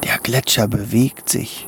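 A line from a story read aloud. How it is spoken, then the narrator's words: Whispered. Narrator (German): flüsterte Tommy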